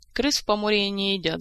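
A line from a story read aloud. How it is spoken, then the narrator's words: Laughing. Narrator (Russian): засмеялся Кантор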